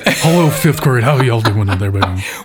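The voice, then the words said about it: Elvis-style crooning impression. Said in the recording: “singing like Elvis ... my Elvis impersonation”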